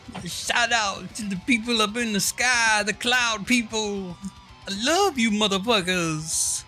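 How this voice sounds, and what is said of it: Imitates another person's voice. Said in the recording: “I'm doing my old dirty impression now.”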